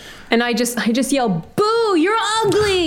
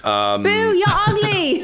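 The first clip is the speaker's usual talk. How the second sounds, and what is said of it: Put-on accent. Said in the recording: “in an accent”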